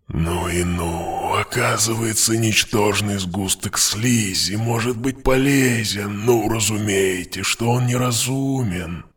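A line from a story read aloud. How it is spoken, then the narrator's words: Weaver purring. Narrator (Russian): мурлыкал ткач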